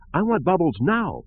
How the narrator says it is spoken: cried

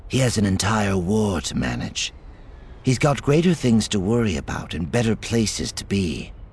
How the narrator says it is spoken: Lying smoothly, replied

